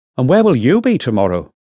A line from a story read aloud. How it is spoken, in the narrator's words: Paniatowski asked, more sharply than she'd intended